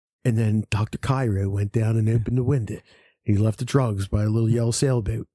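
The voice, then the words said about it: Mock NPR radio narrator voice. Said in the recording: “this is my NPR voice”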